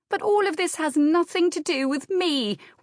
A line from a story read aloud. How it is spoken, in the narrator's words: wailed Anne